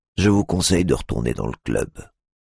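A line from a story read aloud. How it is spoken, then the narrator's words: Plain. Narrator (French): dit le videur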